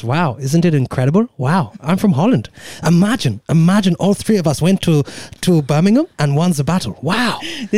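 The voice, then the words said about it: Put-on Dutch accent, drifting German. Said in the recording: “I feel like you could do a Holland accent. ... this is getting a bit German though.”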